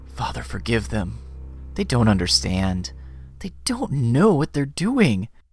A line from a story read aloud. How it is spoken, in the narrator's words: He whispers